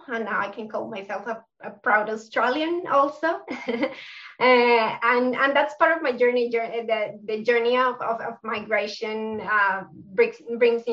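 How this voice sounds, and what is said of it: Colombian South American accent. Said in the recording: “My accent is from South America, so I'm from Colombia.”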